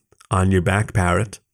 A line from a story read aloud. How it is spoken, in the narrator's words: he said, his tone low and commanding